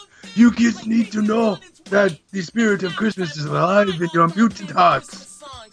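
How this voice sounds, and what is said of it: Raspy, sore-throat character voice. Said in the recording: “I don't even think this dude's trying to do a Japanese accent for some reason out of a rat's body. I think he's just got like a sore throat.”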